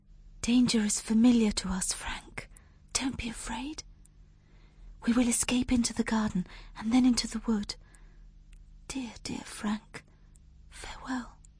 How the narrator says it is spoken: She whispered

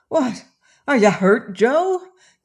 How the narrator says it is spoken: cried he

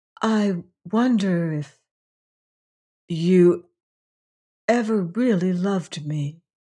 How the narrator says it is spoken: said the girl very softly

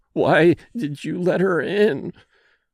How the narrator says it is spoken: she moaned

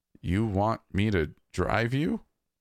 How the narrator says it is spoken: I stammered

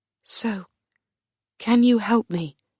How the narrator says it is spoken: Gertrude whispered

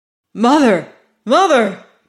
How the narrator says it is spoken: cried Jack

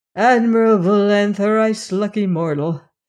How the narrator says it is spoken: sighed Mr

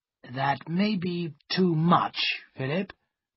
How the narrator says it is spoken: he said slowly

